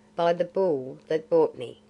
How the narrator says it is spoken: said Mowgli, with a bitter laugh

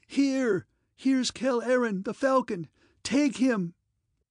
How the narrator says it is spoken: Thin and high, her voice shrieked out

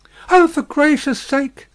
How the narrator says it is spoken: cried Miss Pross, still wildly crying

